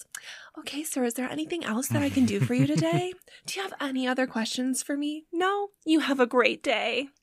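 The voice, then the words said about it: Extra sweet, polite mom voice. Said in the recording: “in my nicest mom voice possible”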